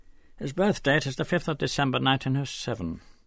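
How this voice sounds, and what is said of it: Clipped upper-class English accent. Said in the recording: “The accent was clipped in upper-class English.”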